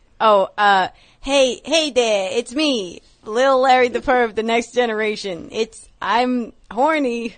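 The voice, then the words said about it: Imitates another person's voice. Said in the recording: “that's a little too much. You gotta work on it. ... your impression.”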